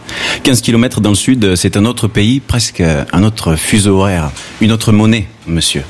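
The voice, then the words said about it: Southern French accent. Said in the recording (French): “je suis du Sud, j'ai l'accent du Sud ... mais toi tu as l'accent du Gard”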